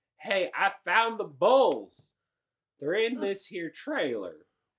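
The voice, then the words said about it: Impression of a farmer's voice. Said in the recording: “I imagine you talk just like that, too. ... You might deserve some awards for that impression.”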